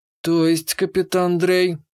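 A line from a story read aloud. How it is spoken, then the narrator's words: Somewhat confused tone. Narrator (Russian): озвучила Корпша несколько растерянным тоном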